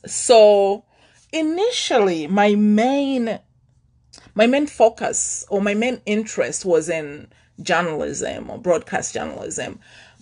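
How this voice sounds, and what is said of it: Thick accent. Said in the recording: “my accent was too thick”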